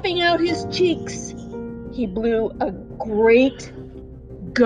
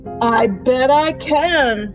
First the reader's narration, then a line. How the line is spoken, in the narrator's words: roared the wind